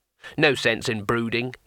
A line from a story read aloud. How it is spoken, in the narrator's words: he said cheerfully